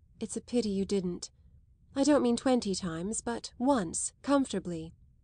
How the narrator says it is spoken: Isabel added, smiling kindly

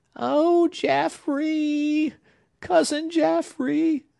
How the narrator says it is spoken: cried Hepzibah mournfully, not passionately

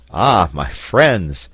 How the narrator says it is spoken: exclaimed Cyrus Harding

